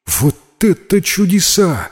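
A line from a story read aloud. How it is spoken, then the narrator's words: Joyful exclamation. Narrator (Russian): радостно воскликнул Бернардиет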